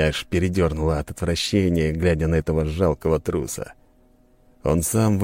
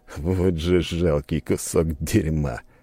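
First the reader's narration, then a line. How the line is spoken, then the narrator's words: Contemptuous inner scoff. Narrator (Russian): хмыкнул я про себя, глядя на него с презрением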